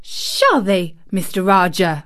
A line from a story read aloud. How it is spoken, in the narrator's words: said Mary fiercely